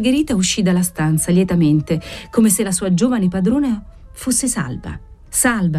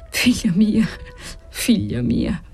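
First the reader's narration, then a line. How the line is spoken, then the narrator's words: Stammering, overwhelmed. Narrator (Italian): Egli non sapeva dire altro, balbettando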